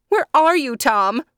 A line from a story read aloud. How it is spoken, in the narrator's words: She cried